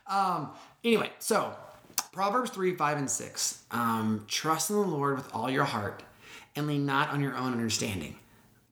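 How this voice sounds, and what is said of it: Raspy, congested voice. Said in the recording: “my voice is a little bit on the uh, jazzy, raspy side. Um, I've been suffering with some sinus stuff”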